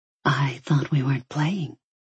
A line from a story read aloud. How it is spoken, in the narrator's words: she whispered